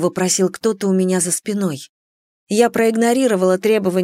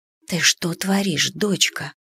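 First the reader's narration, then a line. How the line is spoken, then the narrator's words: Mother whispering in ear. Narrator (Russian): прошептала мама мне в ухо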